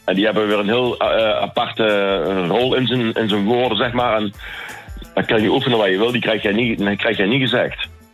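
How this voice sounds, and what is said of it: Slight Helmond Brabant accent. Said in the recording (Dutch): “Ik hoor bij jou ook even een accentje. Welke regio kom jij? ... Helmond, ... ja precies.”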